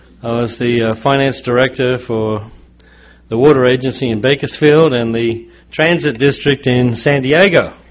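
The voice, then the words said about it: Mixed Australian-American accent. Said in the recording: “I really don't have a completely Australian accent ... I did pick up the U.S. lingo ... when I'm here, people think I'm Australian. When I'm in Australia, they think I'm American. ... I'm kind of mixed.”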